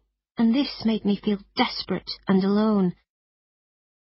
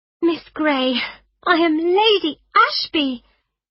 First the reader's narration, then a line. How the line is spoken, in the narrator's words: said excitedly